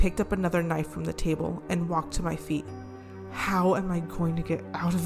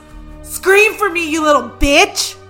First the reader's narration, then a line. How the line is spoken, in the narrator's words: She spat